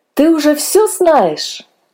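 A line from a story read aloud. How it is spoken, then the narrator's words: Joyful question. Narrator (Russian): радостно спросили мы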